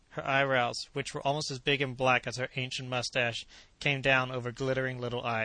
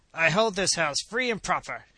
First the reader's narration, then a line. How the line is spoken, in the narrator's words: she said in a determined roar